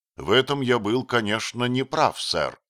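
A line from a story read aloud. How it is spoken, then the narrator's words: Dignified and calm. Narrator (Russian): ответил Отто с достоинством и совершенно спокойно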